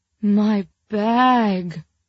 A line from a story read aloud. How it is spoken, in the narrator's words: Nell kept wailing